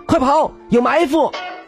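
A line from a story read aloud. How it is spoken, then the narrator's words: Loud shout. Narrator (Chinese): 马克西姆大声喊道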